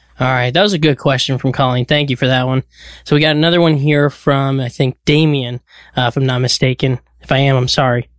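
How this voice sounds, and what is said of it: Slightly hoarse, fading voice. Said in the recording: “Are you losing your voice? ... A little bit, yeah.”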